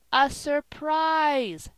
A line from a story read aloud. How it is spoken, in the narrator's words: shouted Polly